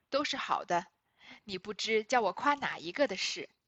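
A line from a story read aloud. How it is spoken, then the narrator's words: Laughing, fond praise. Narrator (Chinese): 又笑道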